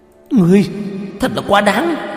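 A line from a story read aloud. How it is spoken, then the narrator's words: Angry shout. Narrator (Vietnamese): Cổ Kỳ Nguyệt thấy Tiểu Diều Hâu bị thương nghiêm trọng, quát lên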